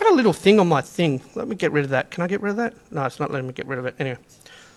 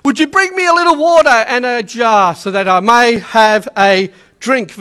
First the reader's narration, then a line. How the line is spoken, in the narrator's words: he called out to her